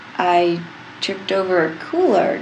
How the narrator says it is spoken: John says slowly, brows furrowing

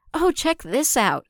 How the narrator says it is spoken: Ahsoka said excitedly

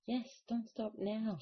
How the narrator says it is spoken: she said frantically

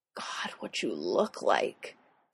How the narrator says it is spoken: Styles murmurs against his ear

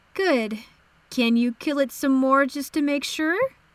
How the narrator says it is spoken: Sif chuckled

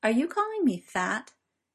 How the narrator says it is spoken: in a deceptively casual tone

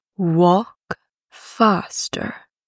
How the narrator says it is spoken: murmured Mo Beijie

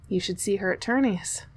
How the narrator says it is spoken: panted Niccolo

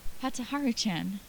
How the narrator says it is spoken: Yuki panted, out of breath

